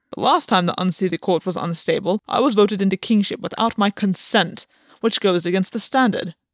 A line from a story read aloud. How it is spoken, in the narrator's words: Gwen snapped